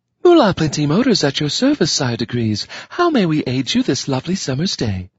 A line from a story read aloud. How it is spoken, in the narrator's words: it said in a sultry soprano voice